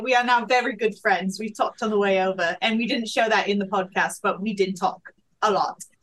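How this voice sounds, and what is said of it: Speaks with a noticeable accent. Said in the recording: “I got the accent, so that's like the difference.”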